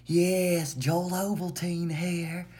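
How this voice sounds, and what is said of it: Imitates another person's voice. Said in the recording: “my Joel Osteen impression”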